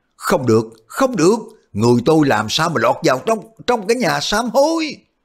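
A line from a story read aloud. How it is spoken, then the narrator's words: Shrieking. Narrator (Vietnamese): lão thét lên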